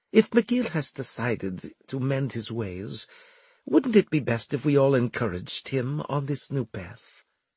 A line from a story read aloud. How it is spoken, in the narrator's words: Turov interrupted in her sweetest tone